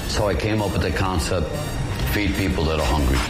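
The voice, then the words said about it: Bronx accent. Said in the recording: “the accent ... Bronx”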